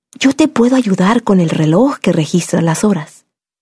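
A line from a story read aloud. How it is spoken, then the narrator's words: Whisper. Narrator (Spanish): ella me susurró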